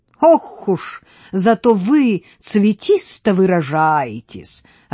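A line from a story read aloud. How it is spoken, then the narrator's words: Burst out laughing. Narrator (Russian): расхохотался Прондницкий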